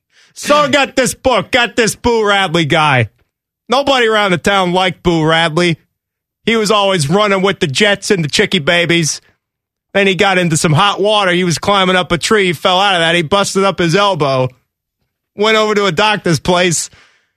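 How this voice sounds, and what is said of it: Dom Tabari impression, New Jersey accent. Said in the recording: “in your Dom Tabari voice ... Dom's getting more and more New Jersey as the impression progresses”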